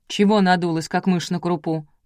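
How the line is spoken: Scolding grandmother. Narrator (Russian): прикрикнула на нее бабушка

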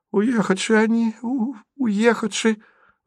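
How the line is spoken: Strained, frightened squeeze. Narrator (Russian): выдавил из себя обильно описавшийся Стеша

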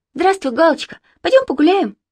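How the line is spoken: Cheerful. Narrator (Russian): Марина весело сказала

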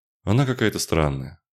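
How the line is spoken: Sighing. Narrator (Russian): вздохнул Аарон

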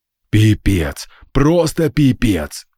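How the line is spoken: Exhaled. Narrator (Russian): выдохнул я

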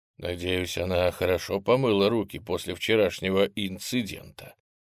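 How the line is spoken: Undertone. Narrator (Russian): вполголоса сказал Михаил

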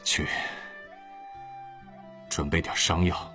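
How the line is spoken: Low-voiced order. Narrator (Chinese): 玉社低声吩咐道

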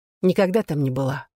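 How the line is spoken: Sighing. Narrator (Russian): вздохнула Глэдис

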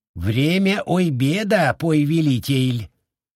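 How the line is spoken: Sudden lisping small voice. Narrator (Russian): Шепелявый голосок Линялы, донесшийся из-за спины строителя, раздался так неожиданно

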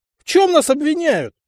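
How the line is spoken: Blurted shout. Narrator (Russian): Не выдержав, выкрикнул шутник

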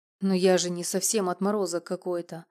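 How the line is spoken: Amused snort. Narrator (Russian): хмыкнул он, как будто снова повеселев

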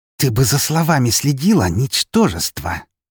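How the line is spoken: Hissing. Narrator (Russian): прошипела она

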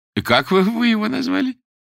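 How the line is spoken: Giggling question. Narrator (Russian): хихикнул товарищ прокурора

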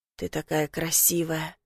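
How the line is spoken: Hoarse whisper. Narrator (Russian): хрипло шепчет

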